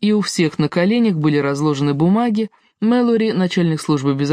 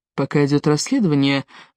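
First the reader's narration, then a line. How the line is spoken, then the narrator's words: Soft speech. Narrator (Russian): мягко сказал Риф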